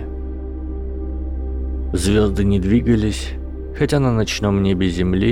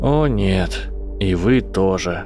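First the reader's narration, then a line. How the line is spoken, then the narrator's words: Tired. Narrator (Russian): устало сказал Гарри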